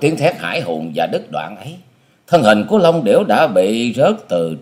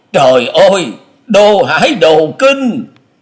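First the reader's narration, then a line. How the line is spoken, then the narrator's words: Flustered exclamation. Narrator (Vietnamese): Long Hải Kiếm Khách chợt hớt hải kêu lên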